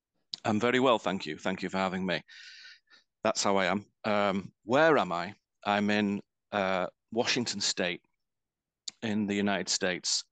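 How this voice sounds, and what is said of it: Mancunian northwest English accent. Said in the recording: “as you can probably tell by my voice, I'm originally from the northwest of England. So I'm a Mancunian”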